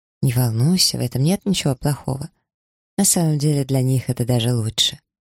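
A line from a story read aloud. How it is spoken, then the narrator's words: Soft lowered voice. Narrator (Russian): Японка понизила голос и мягко добавила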